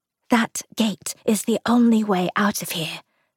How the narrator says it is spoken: Ruth whispered

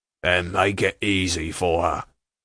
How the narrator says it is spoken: growled the man upon the floor

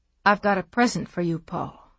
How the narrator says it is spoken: she said softly

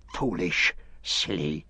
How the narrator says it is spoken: he hissed

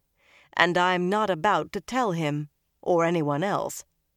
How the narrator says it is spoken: Nynaeve said flatly

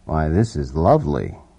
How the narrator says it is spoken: he murmured

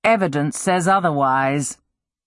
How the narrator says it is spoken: Thorn said dryly

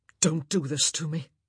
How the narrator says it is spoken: he muttered

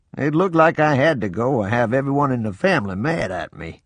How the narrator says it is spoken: Papa laughed and said

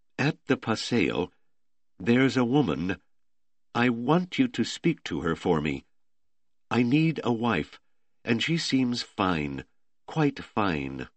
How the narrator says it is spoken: Simone said hesitantly

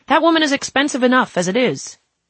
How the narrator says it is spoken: One of the DOH representatives shouted

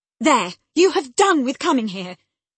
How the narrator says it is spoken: cried Catherine

